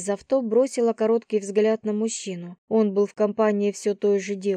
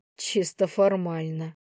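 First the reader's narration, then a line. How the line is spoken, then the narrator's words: Snorted. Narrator (Russian): хмыкнула она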